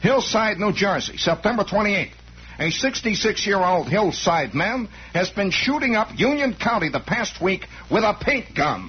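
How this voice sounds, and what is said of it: Put-on New Jersey accent. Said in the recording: “This has to be done in a Jersey accent.”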